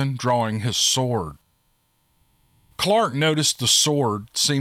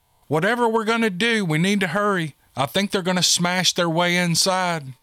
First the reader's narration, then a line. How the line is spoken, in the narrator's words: cried Valkyrie again